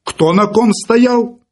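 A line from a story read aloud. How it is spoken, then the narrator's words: Shouted. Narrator (Russian): крикнул Филипп Филиппович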